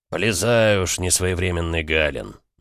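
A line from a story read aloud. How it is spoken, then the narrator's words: Sighing. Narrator (Russian): наконец вздохнул Эмик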